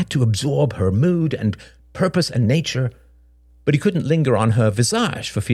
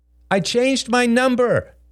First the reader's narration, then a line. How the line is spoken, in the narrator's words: she called out